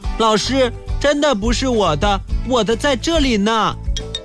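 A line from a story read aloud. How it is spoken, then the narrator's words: Loud. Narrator (Chinese): 小王大声地说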